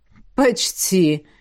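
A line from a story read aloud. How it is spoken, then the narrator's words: Snort. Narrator (Russian): хмыкнул некромант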